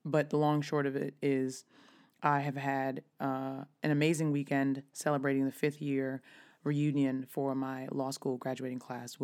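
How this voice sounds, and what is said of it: Slightly raspy voice. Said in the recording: “is a little bit raspy ... why my voice is a little raspy”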